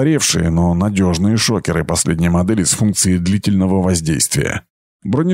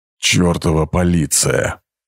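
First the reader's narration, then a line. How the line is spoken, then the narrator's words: Hissed. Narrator (Russian): прошипел Амин Анх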